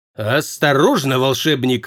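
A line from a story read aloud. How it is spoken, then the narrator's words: Growled. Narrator (Russian): рыкнул Прат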